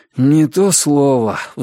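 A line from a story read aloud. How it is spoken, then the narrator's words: Sigh. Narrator (Russian): вздохнул Ричард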